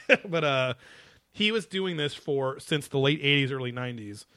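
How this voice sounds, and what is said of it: Usual voice. Nothing is said of it.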